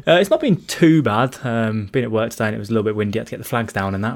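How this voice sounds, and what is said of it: Black Country English accent. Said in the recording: “are you up in Birmingham? I'm guessing by the accent. ... I am from the Black Country”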